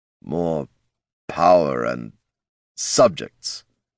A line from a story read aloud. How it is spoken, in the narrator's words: growled Tyrone